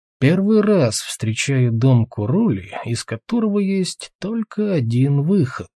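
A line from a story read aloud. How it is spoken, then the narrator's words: Thoughtful mutter. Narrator (Russian): задумчиво пробормотал Тулгрим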